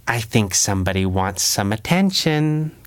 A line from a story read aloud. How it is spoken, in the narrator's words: Kit said under her breath